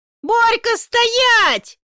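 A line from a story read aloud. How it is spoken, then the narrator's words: Yelling. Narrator (Russian): вопит Сонька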